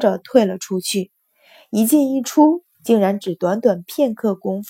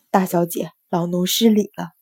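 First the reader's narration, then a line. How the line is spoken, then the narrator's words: Low voice. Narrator (Chinese): 低声道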